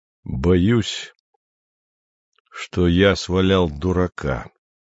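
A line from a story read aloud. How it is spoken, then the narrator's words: Slow speech. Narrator (Russian): медленно проговорил Андрей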